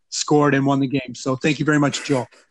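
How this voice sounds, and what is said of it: Possibly sarcastic thanks. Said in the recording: “I was legitimately confused whether that was sarcasm or not.”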